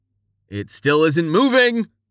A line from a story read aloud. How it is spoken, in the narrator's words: he yelled